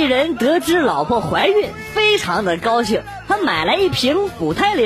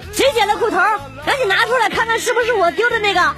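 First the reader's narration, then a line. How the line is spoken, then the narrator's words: Girl's loud shout. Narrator (Chinese): 二楼一女生冲我大喊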